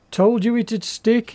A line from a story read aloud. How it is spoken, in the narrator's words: he laughed